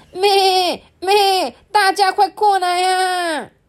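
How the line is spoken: Sheep, loud call. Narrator (Chinese): 绵羊抬起头来，大声的喊着

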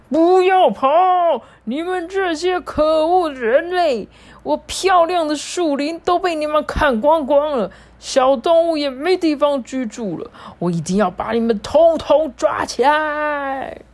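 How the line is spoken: Roaring. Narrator (Chinese): 山精灵吼着说

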